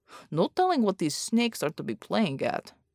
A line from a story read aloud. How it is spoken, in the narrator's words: Bear muttered